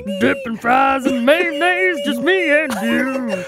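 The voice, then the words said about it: Singing in twangy male country voice. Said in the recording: “you gotta use a man's voice. And, of course, we want some twang ... You gotta use your man's country voice.”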